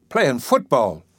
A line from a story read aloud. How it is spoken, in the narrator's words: exclaimed